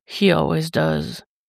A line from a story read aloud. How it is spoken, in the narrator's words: he murmurs, almost regretfully